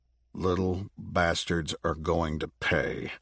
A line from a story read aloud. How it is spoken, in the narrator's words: Zeke muttered